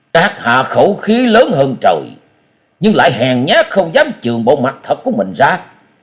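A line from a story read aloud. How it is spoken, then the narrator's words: Angry huff. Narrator (Vietnamese): Hắn tức giận hừ lên một tiếng và nói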